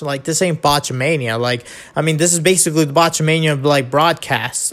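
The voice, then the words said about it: Nasal-sounding voice. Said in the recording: “I don't get why I'm getting nasally all of a sudden.”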